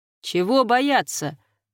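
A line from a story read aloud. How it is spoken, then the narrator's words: Laughing. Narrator (Russian): рассмеялся бес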